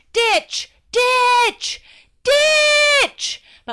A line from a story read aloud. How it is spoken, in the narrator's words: My brain started to scream